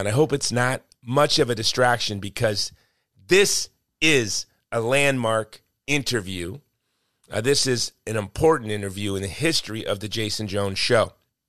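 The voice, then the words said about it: Strained, failing voice. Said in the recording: “I don't even think I sound like me... I've been fighting to keep my voice... My voice is trying to escape”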